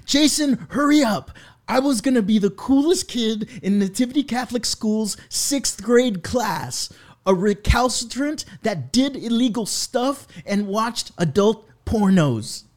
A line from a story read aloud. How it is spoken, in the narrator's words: with no regards for my sleeping parents, I yelled